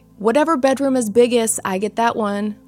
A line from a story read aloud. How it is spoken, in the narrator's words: Lucy yelled out